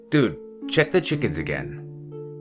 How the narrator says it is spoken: Mike said

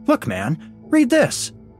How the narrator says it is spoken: I cried

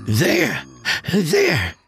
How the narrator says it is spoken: Granger said breathlessly

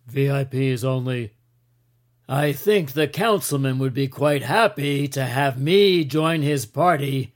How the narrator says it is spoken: Kaufman said loudly

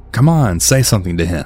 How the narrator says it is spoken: Blue started laughing, and she said

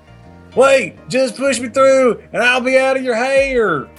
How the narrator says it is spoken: He yelled

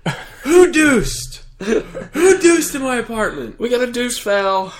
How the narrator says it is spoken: I'd just start yelling

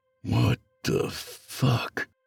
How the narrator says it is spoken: He muttered to himself

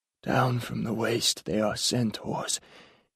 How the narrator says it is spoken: said, the delivery was wheezy, his voice barely audible

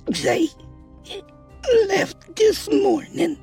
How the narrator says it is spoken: she croaked out

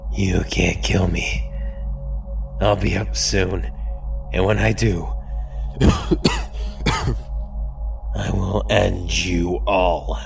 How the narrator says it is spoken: coughing, weakly, saying between coughs

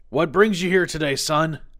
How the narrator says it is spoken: He called out

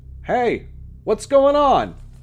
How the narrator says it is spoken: shouted a sturdy voice

